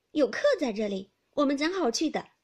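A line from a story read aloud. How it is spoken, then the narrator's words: Laughing. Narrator (Chinese): 袭人笑道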